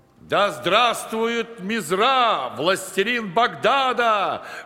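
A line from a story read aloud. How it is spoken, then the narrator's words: Loud crowd shouting. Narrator (Russian): громко выкрикивали его приближенные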